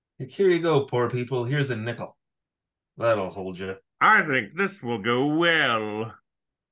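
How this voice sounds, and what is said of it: Snooty rich old-money character voice. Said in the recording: “terrible stroke Thurston Howell impression ... That wasn't bad.”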